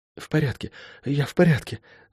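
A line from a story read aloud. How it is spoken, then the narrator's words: Whisper. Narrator (Russian): прошептала она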